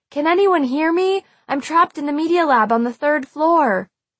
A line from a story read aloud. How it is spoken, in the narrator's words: I knelt down beside the floor vent and shouted